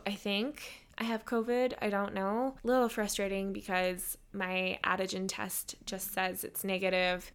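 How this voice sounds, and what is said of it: Slightly raspy, sore-throated voice. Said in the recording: “My throat sounds a little raspy because I have a sore throat.”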